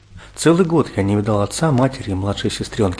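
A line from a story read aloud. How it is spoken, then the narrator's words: Plain. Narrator (Russian): сказал Ларик командиру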